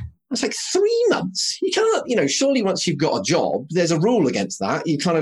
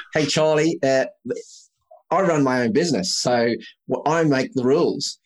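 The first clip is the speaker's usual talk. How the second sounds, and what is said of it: Deliberately bad Australian accent. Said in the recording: “I'll try a really bad Aussie accent”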